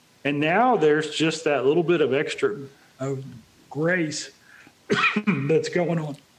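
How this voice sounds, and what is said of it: Voice giving out, losing voice. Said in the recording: “You just lost your voice there, didn't you? ... I lost my voice.”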